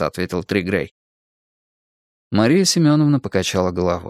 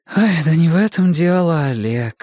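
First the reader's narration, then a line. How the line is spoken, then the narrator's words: Tired voice. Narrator (Russian): устало проговорила директор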